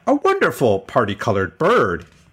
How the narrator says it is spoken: he exclaimed

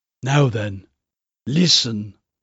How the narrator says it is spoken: Seaton whispered

